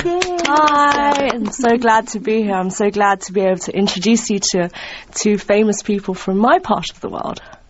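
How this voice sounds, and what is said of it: British English accent. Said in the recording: “she's from England by the way she talks ... good British English ... her accent”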